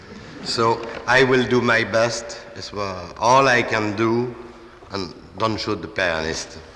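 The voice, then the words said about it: Strong non-native English accent. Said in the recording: “my catastrophic accent”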